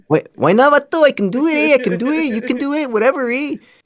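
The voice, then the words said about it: Put-on Mexican Latino accent. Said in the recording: “if I use a Latino accent, I could get away with it ... a Mexican's not going to come up to me and be like ... Why you doing my accent for, eh?”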